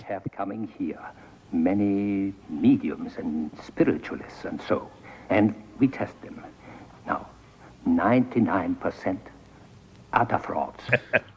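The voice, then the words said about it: Terrible foreign accent, sounds dubbed. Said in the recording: “with a terrible accent that looks like it was dubbed.”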